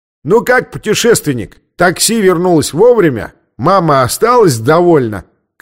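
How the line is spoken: Shout, soldier. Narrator (Russian): крикнул солдат

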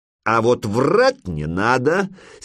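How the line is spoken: Angry grumbling short man. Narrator (Russian): сердито проворчал коротышка

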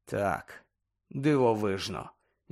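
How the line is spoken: Sighing. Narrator (Ukrainian): зітхнув Гаррі

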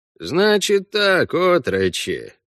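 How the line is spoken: Unbearably bored tone. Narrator (Russian): невыносимо скучным тоном сообщил Вася

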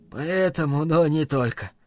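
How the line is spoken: Strange hoarse voice. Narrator (Russian): сказал он странным хриплым голосом

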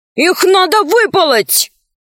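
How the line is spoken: Shouting. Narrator (Russian): закричал Аркаша

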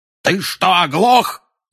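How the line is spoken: Loud male yell. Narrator (Russian): заорал дядя Вернон

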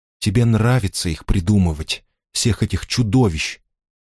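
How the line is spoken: Quiet. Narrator (Russian): тихо сказала она

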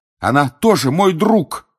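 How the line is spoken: Shouting. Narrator (Russian): кричал Гарри

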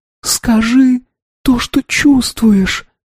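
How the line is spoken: Whisper. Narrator (Russian): прошептала она

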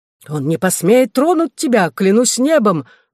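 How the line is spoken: Exclaiming. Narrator (Russian): воскликнул сэр Пирси

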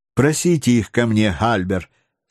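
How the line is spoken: Plain. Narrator (Russian): сказала леди Эллен

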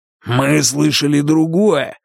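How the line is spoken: Growling. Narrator (Russian): рыкнул Рейс

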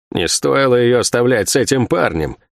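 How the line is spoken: Grumbling. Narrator (Russian): проворчала Сойка

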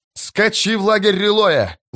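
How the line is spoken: Yelling. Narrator (Russian): завопил другой

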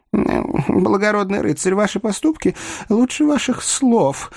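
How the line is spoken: Whimpering joke. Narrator (Russian): захныкал бедный Вамба, который по привычке острил даже перед смертью

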